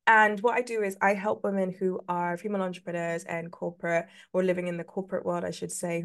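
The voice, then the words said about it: London English accent. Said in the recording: “I am from London, England. This awful accent. ... I hate my accent. I know you guys like it.”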